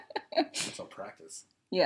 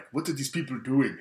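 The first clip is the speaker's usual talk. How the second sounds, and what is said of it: Weak attempt at Nigerian accent. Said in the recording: “I can't do the Nigerian accent. I do it about as well as Will Smith. ... You're 0-2 on impressions today.”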